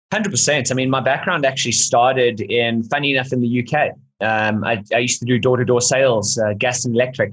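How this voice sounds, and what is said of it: South African accent. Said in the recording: “you might have picked up a South African accent. So ... South African.”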